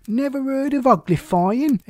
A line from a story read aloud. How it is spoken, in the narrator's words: He exclaimed